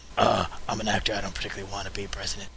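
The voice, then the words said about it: Tired, angry whispery Harrison Ford impression. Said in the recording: “Is that how Harrison Ford talks? ... your impression of Harrison Ford ... You just have to whisper and sound kind of tired / angry, and that's Harrison Ford.”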